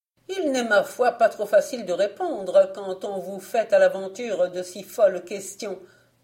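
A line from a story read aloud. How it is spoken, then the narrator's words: Old woman's curt retort. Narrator (French): répliqua sèchement la vieille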